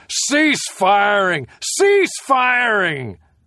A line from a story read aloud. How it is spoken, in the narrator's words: The major was leaning against a tree, looking bored, shouting